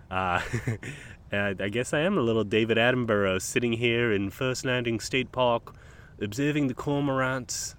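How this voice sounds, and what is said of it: Poor put-on British accent. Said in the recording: “That's a terrible, terrible British accent.”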